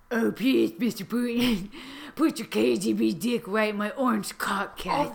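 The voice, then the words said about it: Gravelly Batman-like character voice. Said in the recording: “Oh, you sound like an impersonation of Batman.”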